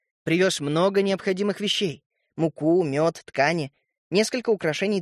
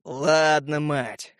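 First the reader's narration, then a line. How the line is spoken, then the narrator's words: Chuckling. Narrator (Russian): хохотнул он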